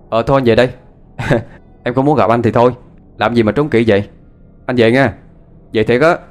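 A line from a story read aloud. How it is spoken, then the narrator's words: Shouting. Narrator (Vietnamese): Phong la lên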